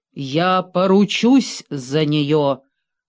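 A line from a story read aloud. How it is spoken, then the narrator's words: Thunderous voice. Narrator (Russian): громоподобным голосом изрекла мисс Хэвишем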